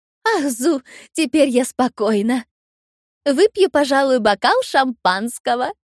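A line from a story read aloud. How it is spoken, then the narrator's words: Joyful. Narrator (Russian): радостно сообщила она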